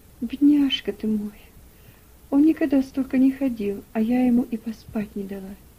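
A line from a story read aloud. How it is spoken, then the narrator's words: Sighing. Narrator (Russian): вздохнула Элиза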